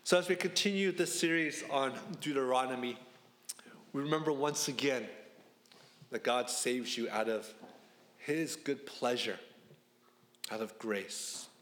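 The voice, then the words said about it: Congested, stuffed-up voice. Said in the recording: “I think I'm feeling my allergies coming back to me... my voice sounds a little bit louder or stuffed up”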